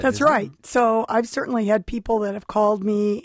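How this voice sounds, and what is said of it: Hoarse, laryngitis-sounding voice. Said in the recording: “today I don't sound like myself ... with a sore throat ... It just sounds like it is. It's just like a laryngitis I've had all week”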